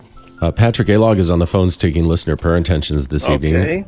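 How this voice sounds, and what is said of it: Polished radio announcer voice. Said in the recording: “he's got such a radio voice. It's wonderful.”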